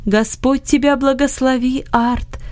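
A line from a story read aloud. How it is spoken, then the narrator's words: Joyful voice. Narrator (Russian): сказал Иосиф радостным голосом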